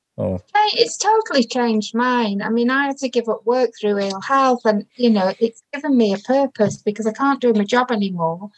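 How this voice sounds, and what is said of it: Non-local regional English accent. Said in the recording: “you can tell by my accent. I'm not a local Salopian.”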